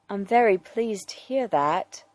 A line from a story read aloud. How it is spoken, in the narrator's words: Alfred says gently